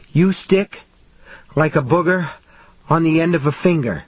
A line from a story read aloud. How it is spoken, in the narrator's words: he panted